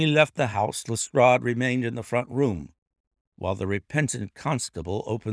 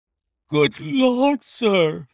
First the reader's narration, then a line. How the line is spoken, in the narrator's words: he cried, with amazement